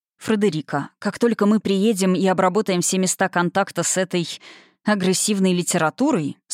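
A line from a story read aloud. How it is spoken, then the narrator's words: Plain. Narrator (Russian): сказал он, прищурившись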